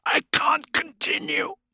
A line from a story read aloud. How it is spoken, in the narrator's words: rasped